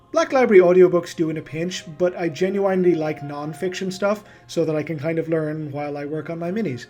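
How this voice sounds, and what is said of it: Irish accent with North American influence. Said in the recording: “The accent sounds a bit Irish. ... The accent is the result of an Irish origin coupled with a few years living in North America.”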